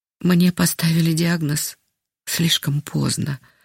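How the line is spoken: Sighing. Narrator (Russian): вздохнула она

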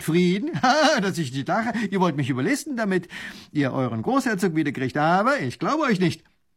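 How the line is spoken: Laughing scornfully. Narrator (German): Ha, lacht der Leutnant

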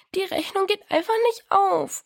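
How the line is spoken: Sobbing. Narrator (German): schluchzte Diana

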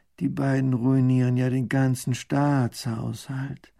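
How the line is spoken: Groaning. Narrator (German): Baron von Raffigny stöhnt

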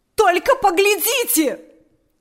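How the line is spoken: Shout. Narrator (Russian): закричала она

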